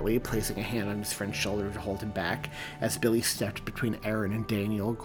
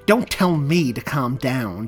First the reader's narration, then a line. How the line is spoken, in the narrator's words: Daniel snapped angrily at his friend